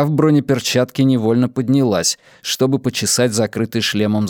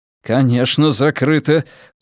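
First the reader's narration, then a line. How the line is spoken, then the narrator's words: Through gritted teeth. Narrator (Russian): процедил Тео сквозь зубы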